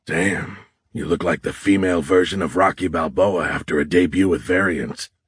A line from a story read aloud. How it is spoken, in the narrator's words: Horn muttered